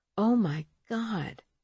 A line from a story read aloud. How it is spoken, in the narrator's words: Marcella moaned quietly